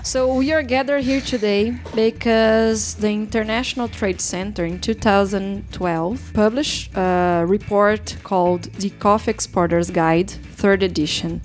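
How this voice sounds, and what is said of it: Speaks English with an accent. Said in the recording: “I'm not the only one with cute accent.”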